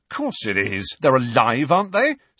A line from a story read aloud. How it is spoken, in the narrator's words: said Fred angrily